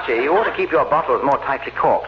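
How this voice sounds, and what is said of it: English accent. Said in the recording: “he talks funny... It's a dialect. He's from England.”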